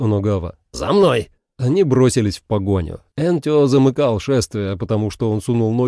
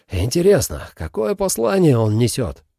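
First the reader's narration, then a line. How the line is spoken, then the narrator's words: Breathy exhale. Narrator (Russian): выдохнул Энтё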